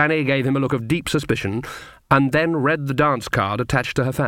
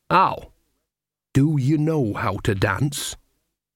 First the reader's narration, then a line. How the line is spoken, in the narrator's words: hissed Nanny